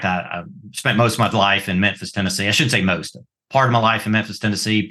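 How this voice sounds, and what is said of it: Southern US accent. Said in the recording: “you can probably tell by this accent, I've lived between Mississippi and Georgia my entire life”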